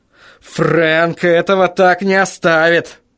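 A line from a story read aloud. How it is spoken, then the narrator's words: Hissed through teeth. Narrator (Russian): прошипел я сквозь зубы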